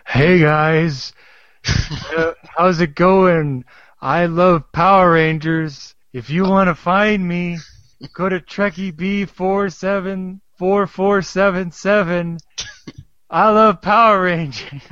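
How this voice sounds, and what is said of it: Imitates another person's voice. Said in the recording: “that was a dead-on impression ... that was a terrible impression”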